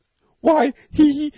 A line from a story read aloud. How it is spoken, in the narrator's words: shrieked McTurk